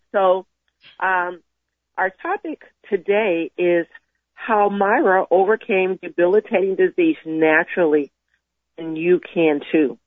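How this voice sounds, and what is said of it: Voice affected by a cold. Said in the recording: “excuse my voice. I'm dealing with a bit of a cold,”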